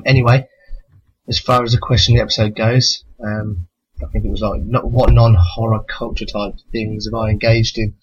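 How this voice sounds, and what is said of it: British accent. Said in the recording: “my sexy British accent ... British accents”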